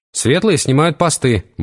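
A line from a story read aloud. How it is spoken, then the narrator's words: Brisk cheerful report. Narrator (Russian): бодро доложил Вервольф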